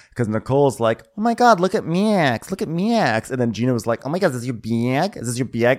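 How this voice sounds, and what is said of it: Imitated Michigan and New York accents. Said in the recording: “It was a collision of Gina's accent and Nicole's accent. ... It was like Michigan versus New York.”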